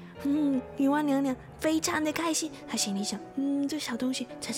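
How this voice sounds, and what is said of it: Usual voice. Nothing is said of it.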